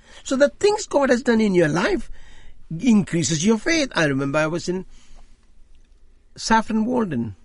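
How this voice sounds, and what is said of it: Heavy accent, pidgin English. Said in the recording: “I got terrible accent, hopeless diction, pidgin English.”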